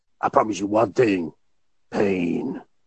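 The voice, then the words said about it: Imitates another person's voice. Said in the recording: “my Mr. T impression”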